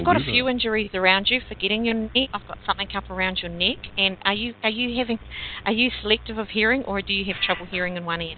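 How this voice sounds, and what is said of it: Accented, very fast speech. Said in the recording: “I'm having trouble understanding your accent, because you're talking very fast.”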